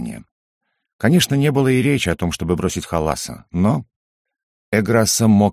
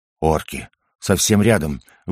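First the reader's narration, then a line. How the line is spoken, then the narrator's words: Breathless exclamation. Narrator (Russian): выдохнула Кликли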